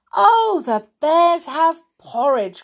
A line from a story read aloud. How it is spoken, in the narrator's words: cried Goldilocks in delight